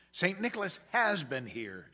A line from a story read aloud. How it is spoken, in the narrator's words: exclaimed